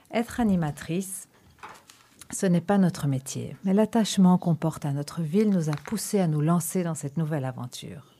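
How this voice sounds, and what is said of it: Non-native French accent. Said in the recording (French): “Notre émission est à notre image, avec notre accent et nos fautes de français”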